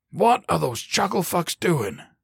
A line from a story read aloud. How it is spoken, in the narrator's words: Murphy snapped